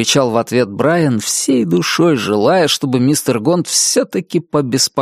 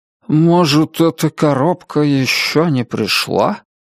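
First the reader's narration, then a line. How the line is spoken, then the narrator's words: Uncertain mutter. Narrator (Russian): неуверенно пробормотал мистер Гонт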